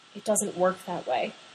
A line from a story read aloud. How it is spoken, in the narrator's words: he says quietly